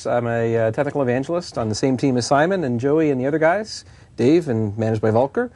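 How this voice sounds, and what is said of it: Canadian accent. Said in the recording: “you heard a lot of a boot, so as you might know, ... here is from Canada ... hopefully you can work through the accent.”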